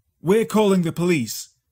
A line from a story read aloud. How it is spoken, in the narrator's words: shouted